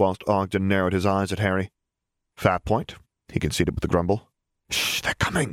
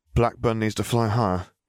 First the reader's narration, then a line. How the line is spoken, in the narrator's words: Harry sighed